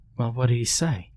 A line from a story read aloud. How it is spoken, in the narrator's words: Lauren said calmly, almost like she knew